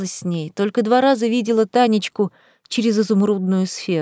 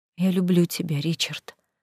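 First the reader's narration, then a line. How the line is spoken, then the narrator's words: Tearful whisper. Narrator (Russian): прошептала сквозь слезы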